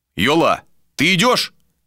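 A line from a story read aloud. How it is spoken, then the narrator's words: Shout. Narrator (Russian): крикнул Вилар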